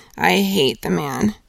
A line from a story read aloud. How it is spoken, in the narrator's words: said Hester Prynne bitterly